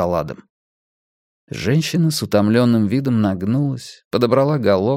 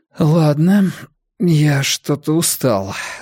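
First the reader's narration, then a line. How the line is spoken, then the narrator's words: Trembling voice. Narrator (Russian): дрожащим голосом объявил Адам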